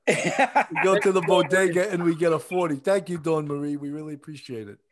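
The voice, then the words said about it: New York City accent. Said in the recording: “our New York City accent”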